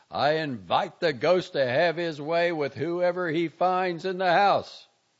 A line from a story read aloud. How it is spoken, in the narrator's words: he yelled